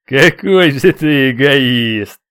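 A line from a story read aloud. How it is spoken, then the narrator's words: Laughing. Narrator (Russian): рассмеялся черный наездник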